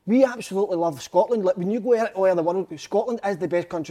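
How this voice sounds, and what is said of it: Scottish accent. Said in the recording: “When I spoke with the accent, it's so special”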